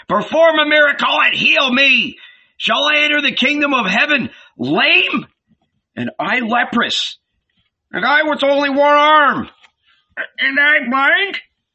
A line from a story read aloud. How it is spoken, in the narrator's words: shouted a man with crutches